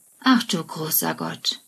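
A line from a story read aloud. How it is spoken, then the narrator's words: Sigh. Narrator (German): seufzt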